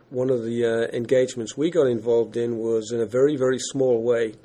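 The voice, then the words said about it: English accent. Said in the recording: “you can tell from my accent, I'm not from around these here parts. So I used to live and work in England.”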